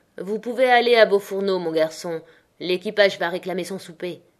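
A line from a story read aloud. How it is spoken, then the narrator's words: Curt captain. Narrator (French): dit sèchement le capitaine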